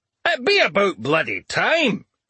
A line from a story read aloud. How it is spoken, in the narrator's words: Crom exclaimed